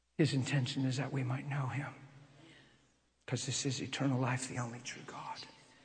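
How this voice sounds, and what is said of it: Soft, quiet, emotional speaking voice. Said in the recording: “my voice is soft right now is because I feel that thing on me... I'm sorry I'm talking soft. I hope you can hear me... Did you see how I changed and got real soft? And I feel emotional inside?”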